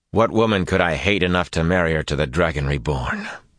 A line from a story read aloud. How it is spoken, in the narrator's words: Rand said coldly